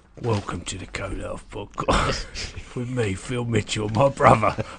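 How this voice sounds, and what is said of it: Dark, moody, gravelly podcast voice. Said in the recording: “I need a podcast voice ... it's dark, it's moody, it's gravelly ... I'm putting it on.”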